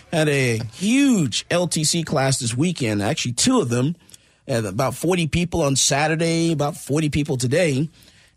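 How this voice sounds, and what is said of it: Hoarse voice. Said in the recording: “I'm just a little hoarse today”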